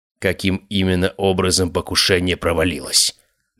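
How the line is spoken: Icy. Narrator (Russian): ледяным тоном произнес он

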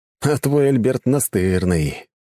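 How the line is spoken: Heavy sigh. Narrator (Russian): тяжело вздохнул я

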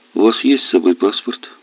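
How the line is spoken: Calm question. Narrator (Russian): спокойно спросил

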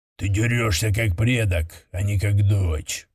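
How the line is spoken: Respectful growl. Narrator (Russian): прорычал кто-то из толпы с явным уважением

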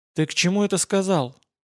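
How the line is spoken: Whispered question. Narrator (Russian): шепотом же спросила коллега по банде

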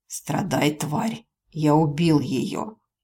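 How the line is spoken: Malicious hoarse rasp. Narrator (Russian): демон злобно ухмыльнулся и прохрипел

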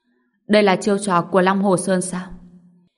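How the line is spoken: Cold. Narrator (Vietnamese): Anh lạnh lùng nói

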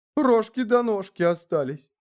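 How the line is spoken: Tearful voice. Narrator (Russian): плачущим голосом завела

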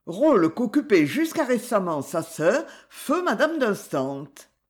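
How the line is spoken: Curt interruption. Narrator (French): interrompit-elle sèchement

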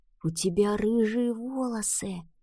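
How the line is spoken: Boy's whisper. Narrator (Russian): прошептал мальчик

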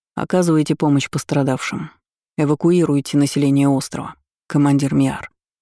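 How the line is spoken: Calm. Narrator (Russian): спокойно ответил я

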